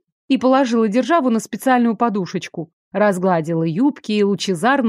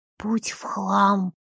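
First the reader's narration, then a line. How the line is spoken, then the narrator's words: Quiet. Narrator (Russian): тихо сказал Шо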